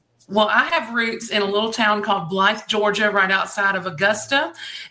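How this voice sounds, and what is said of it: Southern American accent. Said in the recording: “I love your Southern accent.”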